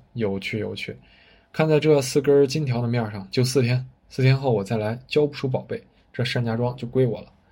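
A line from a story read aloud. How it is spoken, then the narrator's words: Hearty booming laughter. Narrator (Chinese): 胡司令愣了好半晌，哈哈大笑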